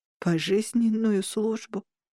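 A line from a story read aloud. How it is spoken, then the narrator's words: Mournful reply. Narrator (Russian): скорбным голосом ответил Нуансия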